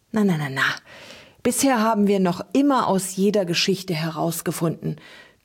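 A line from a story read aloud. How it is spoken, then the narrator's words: Comforting smoky voice. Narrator (German): tröstete Trug mit rauchiger Stimme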